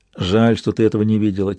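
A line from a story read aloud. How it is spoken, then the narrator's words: Quiet. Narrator (Russian): тихо сказал я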